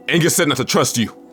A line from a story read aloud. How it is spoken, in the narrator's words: I shouted back